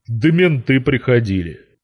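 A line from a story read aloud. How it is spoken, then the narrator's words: Deep smirking voice. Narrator (Russian): пробасил, ухмыляясь Вован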